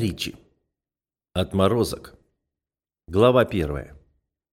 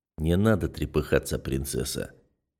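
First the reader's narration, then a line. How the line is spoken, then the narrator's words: Soft insinuating whisper. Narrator (Russian): Тихий, почти вкрадчивый шепот на ухо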